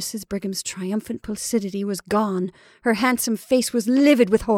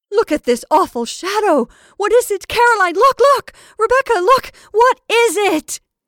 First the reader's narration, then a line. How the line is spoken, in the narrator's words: suddenly she shrieked out